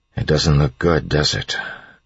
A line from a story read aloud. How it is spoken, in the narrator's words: Elend said quietly